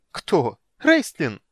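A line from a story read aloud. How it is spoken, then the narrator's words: Laughing, startled and scared. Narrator (Russian): Китиара расхохоталась, однако не сумела скрыть изумление и испуг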